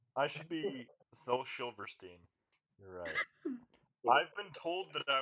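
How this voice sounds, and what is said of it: Usual voice. Nothing is said of it.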